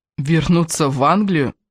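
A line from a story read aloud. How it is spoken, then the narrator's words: Indignant exclamation. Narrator (Russian): возмущенно воскликнул Кевин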